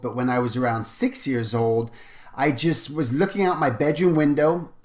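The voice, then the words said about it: Weird English accent, partly American. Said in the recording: “you're going to hear my weird accent. I'm originally from England, and then I moved to America when I was 10 years old.”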